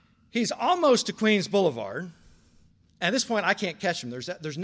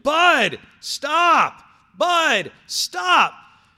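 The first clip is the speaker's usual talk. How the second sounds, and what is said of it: Yelling loudly. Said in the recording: “I'm running and also yelling”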